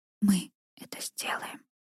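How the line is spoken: Whisper into hair. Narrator (Russian): зашептал в макушку

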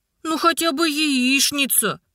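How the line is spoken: Whiny childish voice. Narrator (Russian): Голоском сладкого маминого любимца захныкал Игнат

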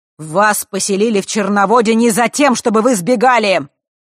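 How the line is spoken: Booming voice. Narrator (Russian): Вновь прогремел голос Черной Королевы

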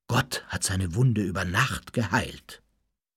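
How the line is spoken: Reverent murmur. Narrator (German): raunte es andächtig durch die Klosterzellen

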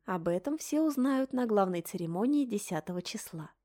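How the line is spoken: Calm reply. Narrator (Russian): спокойно отозвалась та

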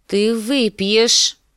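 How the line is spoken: Icy voice. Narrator (Russian): сказала Дэнни ледяным голосом

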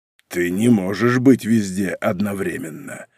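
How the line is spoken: Growling. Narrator (Russian): рыкнул он

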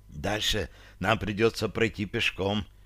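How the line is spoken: Whisper. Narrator (Russian): почему-то прошептала Таша

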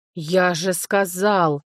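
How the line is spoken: Bear-like man growling. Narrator (Russian): зарычал мужчина, напоминающий медведя

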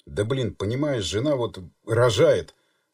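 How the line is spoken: Near moan. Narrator (Russian): почти простонал Станислав

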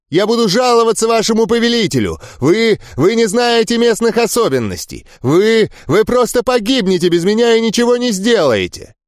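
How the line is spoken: Emboldened melodious shout. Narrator (Russian): Эрл, ощущая всеобщую поддержку, крикнул мелодичным голосом

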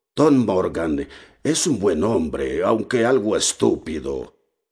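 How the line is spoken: Confidential tone. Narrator (Spanish): Silver, con tono confidencial, me dijo

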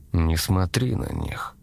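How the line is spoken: Soft, almost tender. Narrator (Russian): мягко, почти ласково сказал голос

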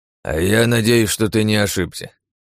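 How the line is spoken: Sighing old man. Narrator (Russian): вздохнул дед

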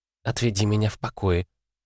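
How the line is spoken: Whispered request. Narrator (Russian): попросила Лита шепотом

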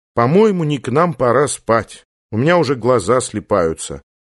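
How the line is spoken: Deep sigh. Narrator (Russian): Таня глубоко вздохнула и сказала

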